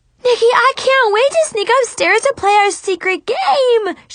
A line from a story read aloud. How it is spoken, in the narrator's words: she screamed excitedly